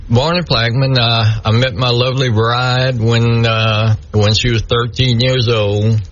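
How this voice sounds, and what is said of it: South Louisiana Cajun-blend accent. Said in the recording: “you haven't lost your accent from Plaquemine ... definitely South Louisiana ... it's a Cajun blend, but it's an interesting blend”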